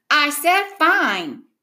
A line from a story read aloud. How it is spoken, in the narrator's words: he yelled back